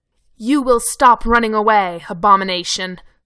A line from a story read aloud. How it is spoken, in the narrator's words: the angel growled at him